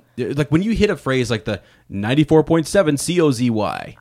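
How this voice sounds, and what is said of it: Radio announcer voice. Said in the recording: “I mean, you do have a radio voice. ... No, do radio voice. ... There we go.”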